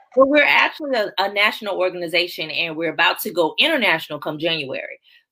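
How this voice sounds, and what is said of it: Southern American twang. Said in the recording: “they can hear my southern twang.”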